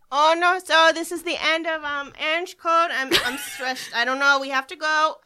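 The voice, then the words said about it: Put-on accent. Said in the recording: “Can you end it in your in your accent that you just randomly get when you're feeling uncomfortable?”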